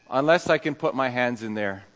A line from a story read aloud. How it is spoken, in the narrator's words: says